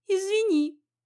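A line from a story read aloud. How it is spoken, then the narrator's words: Squeaked. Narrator (Russian): пискнула я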